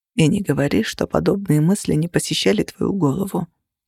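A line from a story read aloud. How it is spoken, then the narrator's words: Quiet. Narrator (Russian): тихо сказал он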